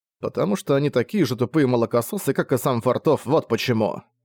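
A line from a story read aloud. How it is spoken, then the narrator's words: Irritated sigh. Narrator (Russian): Он вздохнул, раздраженно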